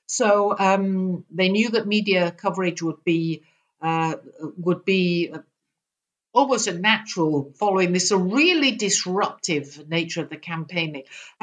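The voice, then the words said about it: British accent. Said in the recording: “I'm a Brit. You probably can't tell that from my accent.”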